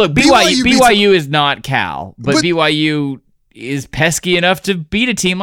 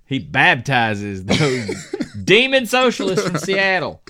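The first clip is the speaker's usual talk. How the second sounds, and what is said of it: Put-on Southern Baptist preacher accent. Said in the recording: “I'm doing like a high country Baptist accent”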